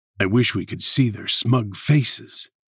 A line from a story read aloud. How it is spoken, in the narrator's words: the Master muttered